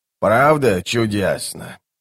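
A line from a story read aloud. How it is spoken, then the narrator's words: Sighing. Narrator (Russian): вздохнула она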